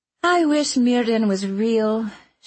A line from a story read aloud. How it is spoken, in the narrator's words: she said with a sigh